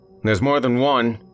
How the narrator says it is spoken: he yelled

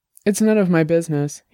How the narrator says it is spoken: he said finally

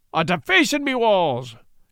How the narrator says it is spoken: cried Pat, at the same time emitting a string of vivid and vile, rather than virile, epithets of opprobrium

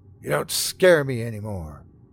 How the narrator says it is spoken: I said, my voice filled with defiance and anger

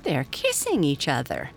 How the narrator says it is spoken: laughed the little girl

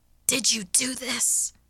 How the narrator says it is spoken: I snapped hoarsely

